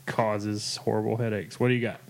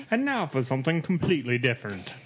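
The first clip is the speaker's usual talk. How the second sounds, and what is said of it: Put-on English accent, poorly done. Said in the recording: “I did a horrible English accent. ... Yes, you did.”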